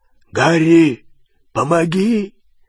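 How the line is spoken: Hoarse call. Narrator (Russian): хрипло позвал Хагрид

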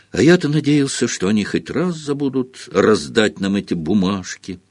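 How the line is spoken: Sad. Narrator (Russian): грустно заметил Фред Уизли

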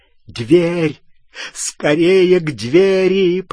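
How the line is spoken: Moaned into ear. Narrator (Russian): простонал Малфой в ухо Гарри

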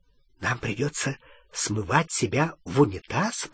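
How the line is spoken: Whispered. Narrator (Russian): прошептал Рон

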